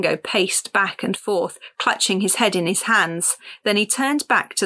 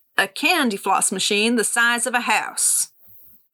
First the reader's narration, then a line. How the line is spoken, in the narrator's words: said, raising his arms triumphantly